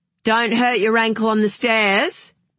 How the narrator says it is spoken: called out Ed from behind the door

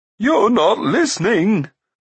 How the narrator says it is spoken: cried Glue

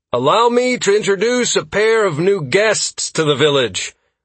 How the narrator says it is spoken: I called out loudly to the village, making a point to speak clearly

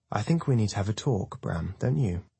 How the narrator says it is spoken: Vivian says calmly, her cold face

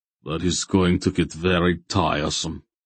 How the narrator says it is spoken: Barak growled

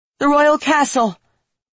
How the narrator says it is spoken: Michelle yelled from the ground

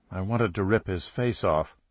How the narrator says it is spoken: saying evenly

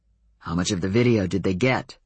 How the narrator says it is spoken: Adam growled

